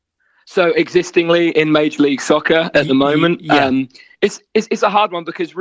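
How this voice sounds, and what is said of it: Norfolk English accent. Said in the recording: “the more the accent starts to come out. You're getting more and more Norfolk as you go through that story ... It's refreshing to get my accent out.”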